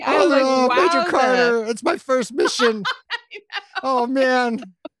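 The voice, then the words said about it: Morty cartoon character impression. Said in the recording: “It's fucking Morty ... You do a good Morty.”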